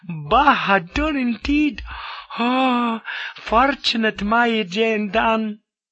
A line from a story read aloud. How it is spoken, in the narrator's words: She took a playful tease at me